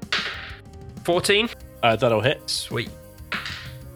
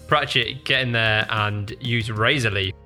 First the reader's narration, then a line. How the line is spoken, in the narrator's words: Felix kind of laughs a little bit at this and just goes